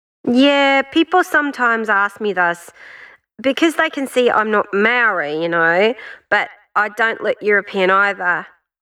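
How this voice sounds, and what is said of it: New Zealand (Kiwi) accent. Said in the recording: “my Kiwi accent”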